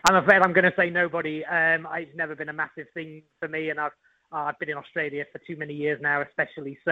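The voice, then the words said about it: English accent. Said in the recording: “that English accent”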